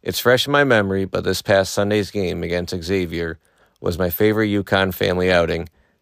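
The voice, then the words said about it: Slightly hoarse voice. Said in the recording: “My voice is a little hoarse from the UConn game last night”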